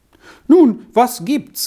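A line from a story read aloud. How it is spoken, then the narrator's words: Calling out official. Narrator (German): rief der Amtmann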